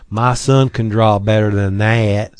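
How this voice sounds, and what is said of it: Put-on Southern drawl. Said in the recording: “I'm sorry to use the southern drawl”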